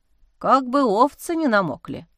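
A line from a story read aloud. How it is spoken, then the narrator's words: Worried mutter. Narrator (Russian): озабоченно пробормотал Ануфрий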